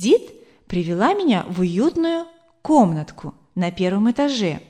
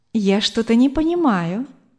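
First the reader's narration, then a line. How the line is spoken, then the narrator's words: Tender woman's voice. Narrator (Russian): ласково сказала женщина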